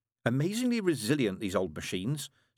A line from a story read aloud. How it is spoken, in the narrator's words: said brightly